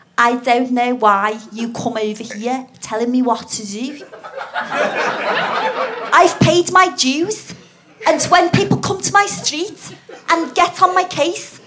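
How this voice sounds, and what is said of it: Attempted Scouse accent. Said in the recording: “Shall I try and do scouse? ... I can't do accents that well”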